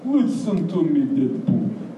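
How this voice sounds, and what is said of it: Heavy put-on Russian accent. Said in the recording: “Says heavy Russian accent.”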